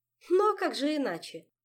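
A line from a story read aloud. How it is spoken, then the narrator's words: Laughing. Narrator (Russian): засмеялась Ольга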